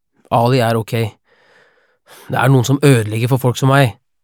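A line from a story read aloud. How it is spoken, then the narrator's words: Angry voice. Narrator (Norwegian): sier han med sint stemme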